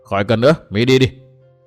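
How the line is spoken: Cold old woman. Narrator (Vietnamese): Bạch Phát thái lão bà lạnh lùng nói

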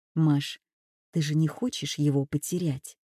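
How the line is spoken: Quiet but resolute. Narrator (Russian): тихо, но очень решительно произнесла

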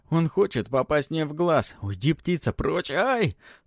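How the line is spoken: Continued yelling. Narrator (Russian): Продолжает вопить тот

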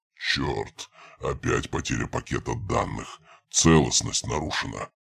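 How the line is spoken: Mutter. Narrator (Russian): пробормотал хозяин

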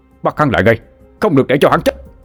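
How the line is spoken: Loud shout. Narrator (Vietnamese): Lý Hải Nhà hét lớn

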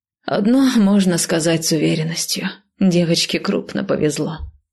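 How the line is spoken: Sighed. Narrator (Russian): вздохнула я

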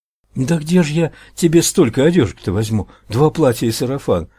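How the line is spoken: Woman pleading. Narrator (Russian): взмолилась женщина

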